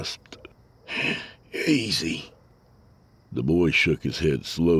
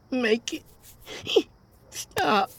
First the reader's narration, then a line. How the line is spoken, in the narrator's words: he begged